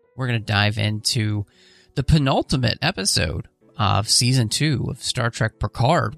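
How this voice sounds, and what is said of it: Slightly unwell-sounding voice. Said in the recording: “I'm feeling a little under the weather, so you might hear that in my voice”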